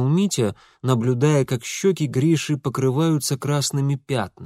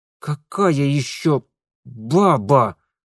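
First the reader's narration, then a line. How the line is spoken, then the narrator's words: Angry, through teeth. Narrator (Russian): зло процедил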